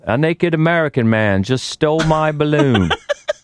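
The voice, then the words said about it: Bad put-on British accent. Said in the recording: “your bad British accent”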